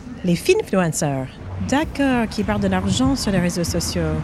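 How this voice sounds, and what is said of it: American accent speaking French. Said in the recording (French): “elle a un accent ... Des États-Unis”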